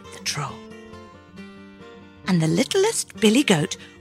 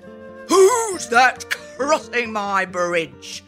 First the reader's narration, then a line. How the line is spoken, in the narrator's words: the troll roared